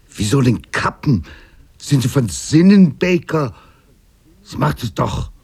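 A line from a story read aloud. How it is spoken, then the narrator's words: Angry. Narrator (German): Wütend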